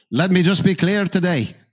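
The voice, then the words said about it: Poor attempt at Scottish accent. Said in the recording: “I can't do the accent,... I'll just insult all of Scotland.... No, that's terrible.”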